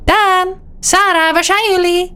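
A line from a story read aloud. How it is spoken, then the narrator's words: Mother calling out. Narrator (Dutch): riep mama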